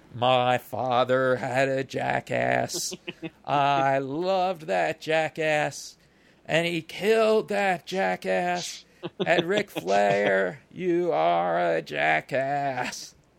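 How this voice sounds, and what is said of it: Terry Funk impression. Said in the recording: “a pretty darn good Terry Funk impression”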